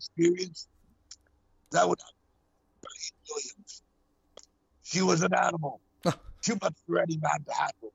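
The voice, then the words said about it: Raspy voice imitating another person. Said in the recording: “that was a good Lemmy impression ... He's got that rasp.”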